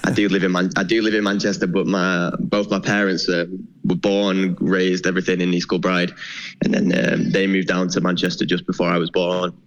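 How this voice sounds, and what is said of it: English accent. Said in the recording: “the English accent”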